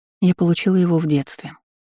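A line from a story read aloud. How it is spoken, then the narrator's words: Calm reply. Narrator (Russian): ответила спокойно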